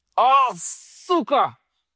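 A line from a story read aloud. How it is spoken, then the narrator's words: Yelling. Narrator (Russian): заорал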